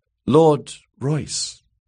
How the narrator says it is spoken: she asked timidly

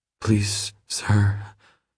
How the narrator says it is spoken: she whimpers

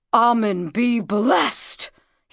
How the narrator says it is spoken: he exclaimed

